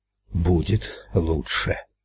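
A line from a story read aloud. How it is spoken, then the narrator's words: Breathed out. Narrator (Russian): выдохнул Эд прямо в лицо Ральфу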